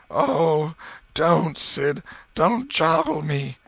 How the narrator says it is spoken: Tom moaned out

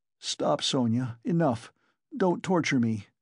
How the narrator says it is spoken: he begged her miserably

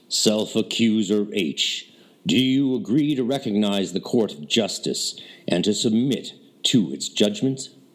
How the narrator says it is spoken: said in his clear proclamatory voice

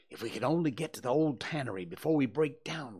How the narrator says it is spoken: whispered Tom, in short catches between breaths

